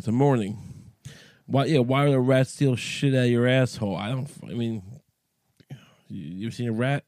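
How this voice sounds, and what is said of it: Cracky morning voice. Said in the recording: “My voice is cracky in the morning.”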